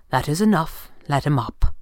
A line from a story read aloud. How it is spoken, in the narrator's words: Fenwick said quietly